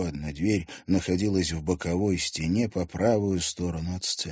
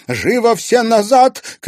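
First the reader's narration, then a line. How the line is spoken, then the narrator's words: Shouted. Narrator (Russian): крикнула Лариса Аркадьевна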